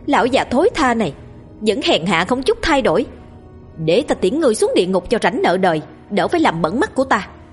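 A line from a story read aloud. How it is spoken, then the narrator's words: Furious scream. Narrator (Vietnamese): gào lên đầy tức giận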